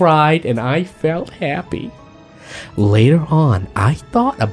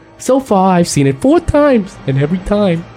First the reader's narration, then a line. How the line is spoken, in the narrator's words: I cried